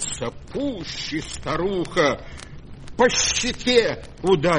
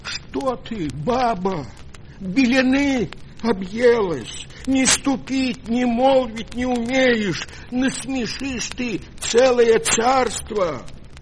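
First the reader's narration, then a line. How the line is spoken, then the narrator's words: Frightened pleading. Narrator (Russian): Испугался старик, взмолился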